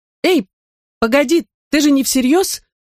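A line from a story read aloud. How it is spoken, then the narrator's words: Fearful voice cracking. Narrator (Russian): воскликнула Минни, и ее голос сорвался от страха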